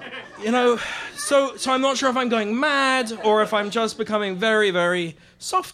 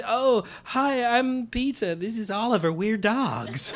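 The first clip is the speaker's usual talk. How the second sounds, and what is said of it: Bad put-on American accent. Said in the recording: “Always with a sort of bad American accent as well.”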